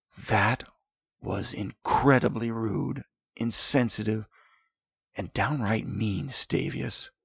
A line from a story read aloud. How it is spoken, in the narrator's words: he whispered